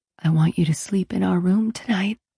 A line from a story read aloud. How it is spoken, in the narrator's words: I whispered